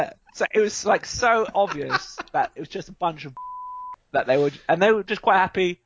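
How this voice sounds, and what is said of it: Usual voice. Nothing is said of it.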